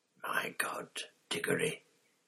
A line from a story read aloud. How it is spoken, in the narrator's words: it whispered